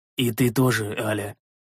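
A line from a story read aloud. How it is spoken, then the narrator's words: Gentle, smiling. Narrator (Russian): мягко улыбнулся я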